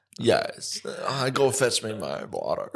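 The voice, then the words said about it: Put-on Victorian-era posh accent. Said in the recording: “he talks with a Victorian accent.”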